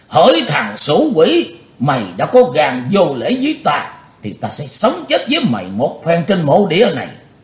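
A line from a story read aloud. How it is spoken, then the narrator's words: Hateful shout, old man. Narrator (Vietnamese): lão ác đạo đã trấn tĩnh lại tinh thần, căm thù hét lớn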